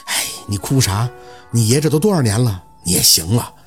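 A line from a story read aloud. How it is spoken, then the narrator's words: Sighing older man. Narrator (Chinese): 其中一个稍微年长的叹气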